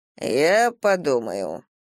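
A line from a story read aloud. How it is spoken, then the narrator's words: Lazy reply. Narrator (Russian): лениво откликнулся государь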